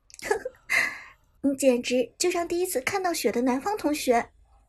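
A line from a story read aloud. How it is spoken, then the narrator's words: Giggling soft teasing. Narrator (Chinese): 伍兹倒是被苏哲逗得咯咯娇笑，轻声在旁边吐槽道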